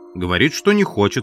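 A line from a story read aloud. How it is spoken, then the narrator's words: Plain. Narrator (Russian): сказал Холл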